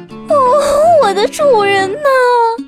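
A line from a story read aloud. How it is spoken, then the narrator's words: Tearful desperate pleading. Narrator (Chinese): 妖妇……哭泣着，苦苦地哀求说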